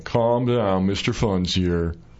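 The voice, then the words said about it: Imitates a gloomy comedian's voice. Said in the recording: “he's really pessimistic ... my impression of Larry Bubbles Brown”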